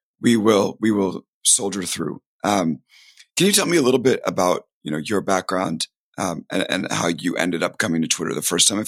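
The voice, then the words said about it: Strained, unwell-sounding voice. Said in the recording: “excuse my voice... my body just gave out”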